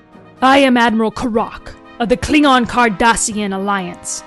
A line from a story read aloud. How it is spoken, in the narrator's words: growled